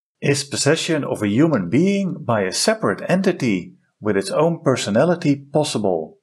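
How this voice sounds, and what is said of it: Foreign-accented English. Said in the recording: “He's got his own engineering company in the Netherlands ... Great accent.”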